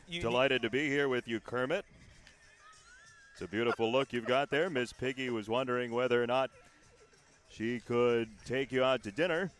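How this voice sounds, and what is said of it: Imitates a sportscaster's voice. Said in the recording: “your Sean McDonough impersonation. This is legendary.”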